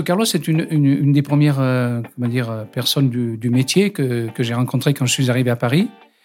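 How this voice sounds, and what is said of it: Southern French accent. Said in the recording (French): “t'as un accent du Sud. Mais j'ai dit, bah oui, je ne le cache pas”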